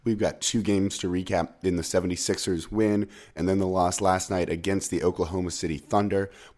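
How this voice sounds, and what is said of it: Sick, hoarse, whispery voice from cold. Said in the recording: “the very sick ... as you can probably tell from my voice ... No, I'm not trying to seduce you with sweet whispers or whatever into your ear. Fighting off a cold. ... I could not talk at all.”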